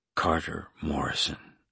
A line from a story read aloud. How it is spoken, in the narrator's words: I whispered to myself